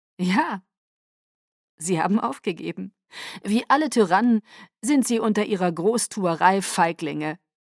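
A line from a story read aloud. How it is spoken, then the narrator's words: Giggling. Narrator (German): kicherte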